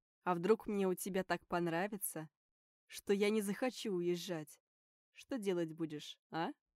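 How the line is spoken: Laughing. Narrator (Russian): Смеялся

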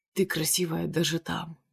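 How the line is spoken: Hoarse voice. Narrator (Russian): хрипло сообщает мне

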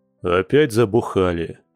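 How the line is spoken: Displeased grumble. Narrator (Russian): недовольно проворчал Борис

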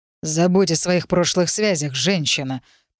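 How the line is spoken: Growling. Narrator (Russian): прорычал

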